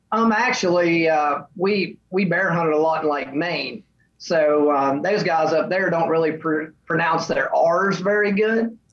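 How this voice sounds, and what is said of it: Southern American accent. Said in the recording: “you have an accent, and unfortunately, like the Southern accent is one that people always try to mimic”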